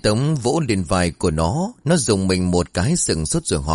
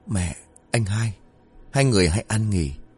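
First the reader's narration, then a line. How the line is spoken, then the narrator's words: Muttering under breath. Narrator (Vietnamese): Nó lẩm bẩm trong miệng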